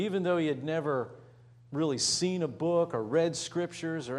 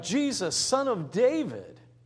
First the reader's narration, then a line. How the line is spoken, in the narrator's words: He cried